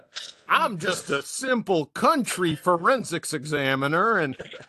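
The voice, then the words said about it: Put-on folksy Kentucky country accent. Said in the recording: “your aw shucks Kentucky, shit kicker accent”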